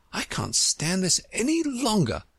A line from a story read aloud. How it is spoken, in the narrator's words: she cried